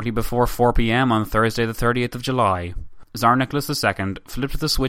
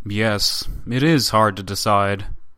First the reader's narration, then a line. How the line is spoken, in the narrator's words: the up-to-now silent Tatischev, who added gravely